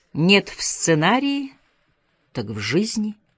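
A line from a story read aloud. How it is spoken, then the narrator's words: Prophetic tone. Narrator (Russian): пророческим тоном ответила Гарбо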